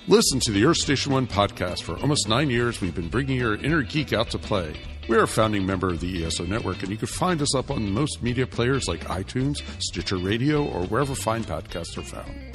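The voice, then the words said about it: Announcer voice. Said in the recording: “I guess I could just use my announcer voice.”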